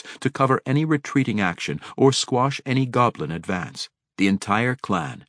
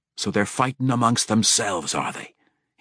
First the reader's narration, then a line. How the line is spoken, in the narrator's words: he muttered softly, chuckling